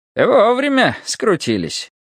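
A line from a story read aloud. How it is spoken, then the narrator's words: Cheerful. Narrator (Russian): весело сказал Степан Геннадьевич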